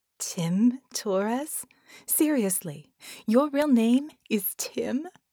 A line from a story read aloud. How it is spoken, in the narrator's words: her shoulders shaking with laughter